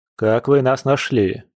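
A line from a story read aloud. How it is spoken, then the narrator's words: Stern. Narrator (Russian): строго спросил Дима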